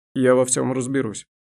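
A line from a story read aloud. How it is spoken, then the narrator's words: Dry curt. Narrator (Russian): сухо проговорил Дайрон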